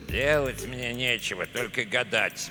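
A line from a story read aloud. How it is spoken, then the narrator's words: Grumbling. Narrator (Russian): проворчал Эдуардо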